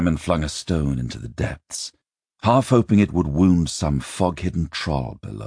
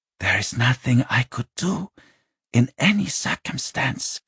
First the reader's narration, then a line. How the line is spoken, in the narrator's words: Jariki said quietly